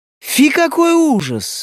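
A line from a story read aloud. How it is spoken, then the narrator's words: Several voices exclaiming. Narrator (Russian): воскликнули они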